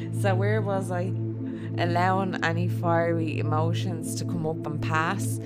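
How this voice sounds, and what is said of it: Dublin Irish accent. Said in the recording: “my Dublin accent”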